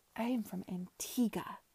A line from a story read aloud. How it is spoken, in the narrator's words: Georgiana said angrily